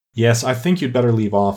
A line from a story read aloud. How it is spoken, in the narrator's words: said the Gryphon